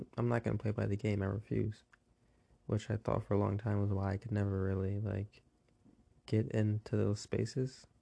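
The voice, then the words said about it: Sleepy, tired-sounding voice. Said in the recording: “my voice is waking up, so I'll be getting back to normal... I usually talk sleepy anyway... I'm working on 3 hours of sleep”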